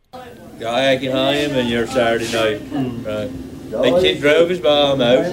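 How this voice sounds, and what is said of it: Tangier Island accent and dialect. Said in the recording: “you'll hear some people on Tangier Island speaking. You'll hear the accent and the dialect. Some of this I could understand, others of this I could not”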